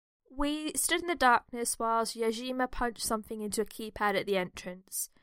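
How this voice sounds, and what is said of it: Put-on Wiltshire accent. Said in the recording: “in my best Wiltshire accent”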